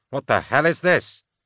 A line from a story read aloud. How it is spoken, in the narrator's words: Limwall cried